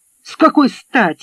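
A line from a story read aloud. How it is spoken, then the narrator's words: Barking. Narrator (Russian): рявкнул Мэтт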